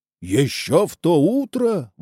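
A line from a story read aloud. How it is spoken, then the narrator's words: Captain's exclamation. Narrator (Russian): воскликнул капитан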